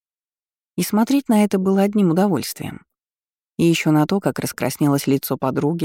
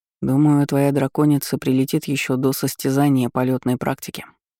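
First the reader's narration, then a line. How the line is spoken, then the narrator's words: Said quietly. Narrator (Russian): негромко произнес он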